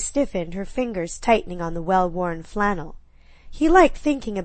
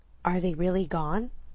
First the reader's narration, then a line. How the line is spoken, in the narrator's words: That husky whisper